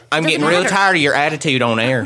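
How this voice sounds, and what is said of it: Put-on folksy old man accent. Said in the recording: “put the accent away ... became peepaw”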